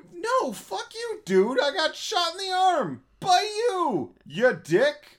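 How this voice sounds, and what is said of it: Yelling, voice going up high. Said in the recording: “Why are you yelling? ... I like watching my voice go up high on the thing.”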